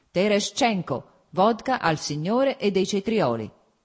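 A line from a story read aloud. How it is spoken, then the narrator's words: Self-satisfied shout. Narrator (Italian): gridò, evidentemente compiaciuto ad ascoltare la propria voce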